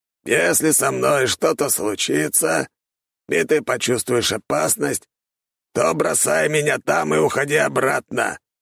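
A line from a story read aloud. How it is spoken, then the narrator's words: Hoarse rasp. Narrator (Russian): прохрипел Александр Григорьевич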